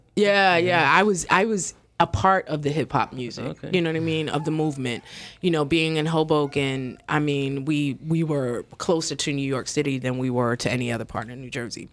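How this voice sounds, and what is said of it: New York area accent. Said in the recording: “I'm sure you can hear the accent. That's where I'm originally from, Hoboken ... In New York”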